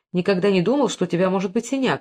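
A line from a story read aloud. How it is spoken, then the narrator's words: Plain. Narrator (Russian): сказал он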